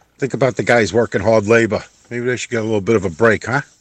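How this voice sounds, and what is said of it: Brooklyn accent. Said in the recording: “Do I detect the Brooklyn accent?”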